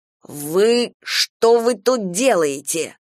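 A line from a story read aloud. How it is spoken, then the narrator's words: Hissing. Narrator (Russian): шипел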